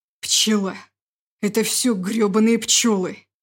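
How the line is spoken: Growling under his breath. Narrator (Russian): рычал Егор себе под нос

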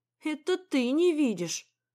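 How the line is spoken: Sighing. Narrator (Russian): вздохнула я

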